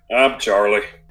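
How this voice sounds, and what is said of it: Gruff character voice. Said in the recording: “my accent for Charlie was a little different, though. Maybe this is a little too gruff.”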